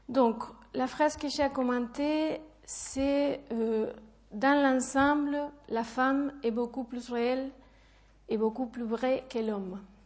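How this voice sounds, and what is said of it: Strong foreign accent in French. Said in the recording (French): “mon accent est très fort”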